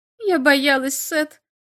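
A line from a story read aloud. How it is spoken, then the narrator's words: Tearful speech. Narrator (Russian): сказала сквозь слезы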